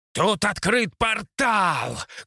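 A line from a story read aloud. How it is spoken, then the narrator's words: Shouted as loud as possible. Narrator (Russian): крикнул как можно громче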